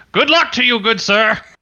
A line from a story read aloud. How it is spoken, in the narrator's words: I shout after him